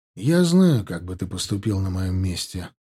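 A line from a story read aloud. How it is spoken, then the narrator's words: Gloomy reply. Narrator (Russian): ответил я не менее мрачно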